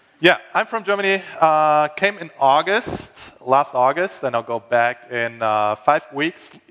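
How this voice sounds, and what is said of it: German-accented English. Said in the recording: “I try to do my best English. And I'm sure you all love accents, right?”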